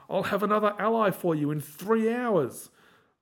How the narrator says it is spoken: Chief yells after them

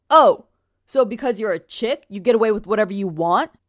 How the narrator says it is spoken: From across the circle, he shouts

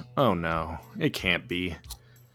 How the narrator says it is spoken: Buddy mutters

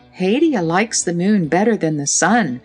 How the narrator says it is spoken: said the girl wistfully

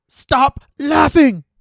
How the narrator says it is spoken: Jeremy screamed out of frustration

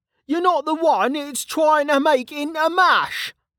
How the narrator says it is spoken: Kettle shouted

